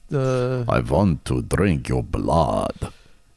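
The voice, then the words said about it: Hungarian-accented vampire voice. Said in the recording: “Can you flop out your Hungarian accent? ... that's my Bela Lugosi ... I just nailed a perfect Hungarian accent.”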